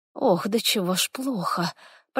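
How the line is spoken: Moaning in pain. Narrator (Russian): простонала

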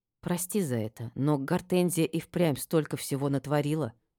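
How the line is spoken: Quiet speech. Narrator (Russian): тихо проговорила я

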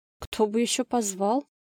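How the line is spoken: Confused reply. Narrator (Russian): Растерянно ответила она

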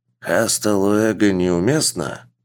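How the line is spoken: Vague grunt. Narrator (Russian): Никарагуанец неопределенно хмыкнул

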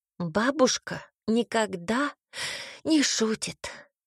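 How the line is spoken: Sighing child. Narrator (Russian): вздохнул ребенок

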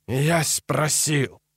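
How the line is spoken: Hoarse hiss through teeth. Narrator (Russian): хрипло зашипел сквозь стиснутые зубы

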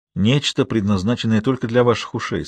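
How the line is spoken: Plain. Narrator (Russian): сказал он

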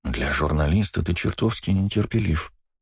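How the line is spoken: Whisper. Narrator (Russian): прошептал

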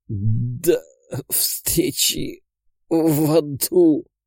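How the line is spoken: Wheezing with visible effort. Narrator (Russian): с явным трудом прохрипел Татьев

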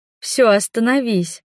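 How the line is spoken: Girl's quiet hoarse voice. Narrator (Russian): проседает голос девчонки до тихого хрипа

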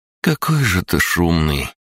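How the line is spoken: Grumbling. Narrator (Russian): проворчала Беспала

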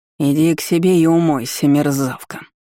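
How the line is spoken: Angry snarl. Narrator (Russian): рыкнула родственница, гневно скались

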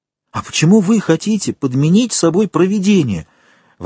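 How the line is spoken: Exclamation. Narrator (Russian): воскликнула Мерседес

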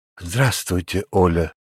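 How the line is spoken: Heartfelt voice. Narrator (Russian): проникновенным голосом начал я

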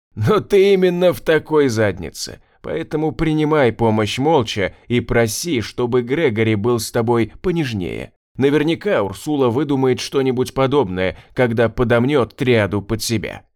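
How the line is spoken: Loud laughter. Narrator (Russian): расхохотался Свен

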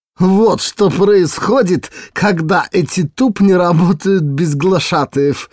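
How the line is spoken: Plump lady's giggling whisper. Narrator (Russian): хихикнула полная дама на ухо подруги

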